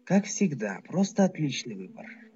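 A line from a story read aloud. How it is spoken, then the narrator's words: Sighing, hidden pony. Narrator (Russian): вздохнула прятавшаяся в кустах пони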